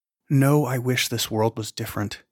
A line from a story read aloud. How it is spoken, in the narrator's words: whispered